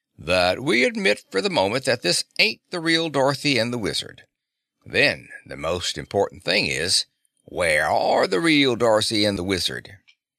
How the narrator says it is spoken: began the old sailor gruffly

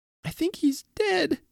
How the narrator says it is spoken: she sobbed

